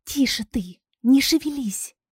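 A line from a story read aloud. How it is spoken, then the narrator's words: Barely audible whisper. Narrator (Russian): еле слышно прошептала она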